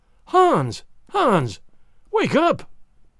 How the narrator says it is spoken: she cried

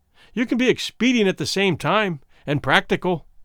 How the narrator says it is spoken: Womble said sharply

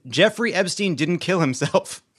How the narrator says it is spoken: the tuna melt screamed

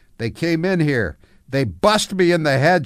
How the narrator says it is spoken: cried while wiping blood away from her face

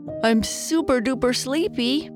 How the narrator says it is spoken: Papa Bear said as he covered his mouth while he yawned

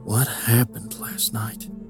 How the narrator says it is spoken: Jack mumbled under his breath

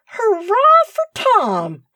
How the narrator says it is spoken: cried Kenneth

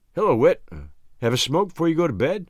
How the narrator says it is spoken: I asked cheerfully

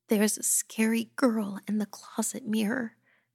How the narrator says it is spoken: she whimpered

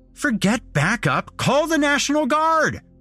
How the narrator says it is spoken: I shouted

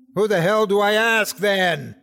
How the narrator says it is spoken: I shout

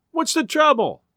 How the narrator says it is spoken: a woman cried

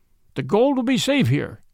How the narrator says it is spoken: cried one

